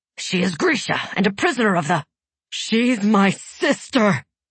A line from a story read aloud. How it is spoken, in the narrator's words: he roared